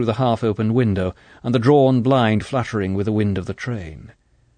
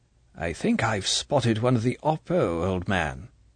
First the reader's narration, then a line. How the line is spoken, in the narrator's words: he said softly